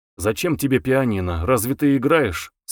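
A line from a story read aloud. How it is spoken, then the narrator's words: Dry question. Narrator (Russian): сухо спросил Самгин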